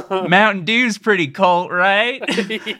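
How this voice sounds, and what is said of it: Put-on rural American accent. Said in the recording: “it's in some kind of, I would say, rural American accent.”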